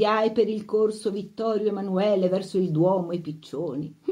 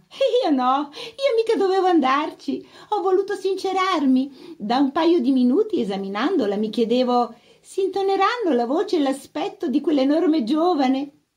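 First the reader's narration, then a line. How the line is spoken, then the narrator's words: Laughing. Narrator (Italian): Ridendo fa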